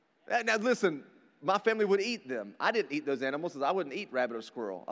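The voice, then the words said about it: Rural North Carolina Southern accent. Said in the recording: “I grew up in rural North Carolina, if you can't tell by my accent.”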